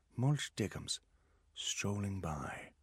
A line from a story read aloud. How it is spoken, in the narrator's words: whispered